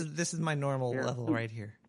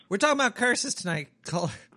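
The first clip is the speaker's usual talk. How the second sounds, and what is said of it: Yelling, very loud. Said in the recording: “You're super loud in my ear... I'm yelling into the phone... You were yelling into my phone”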